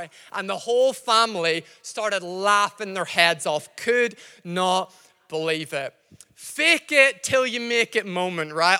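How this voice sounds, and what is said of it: Northern Irish accent, slightly Scottish. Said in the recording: “I know I sound slightly Scottish. My accent's mixed up. I've been here a while. I'm from Northern Ireland.”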